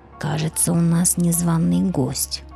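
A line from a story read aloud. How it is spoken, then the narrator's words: Sulky grumbling. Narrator (Russian): ворчал Ярок, насупив перья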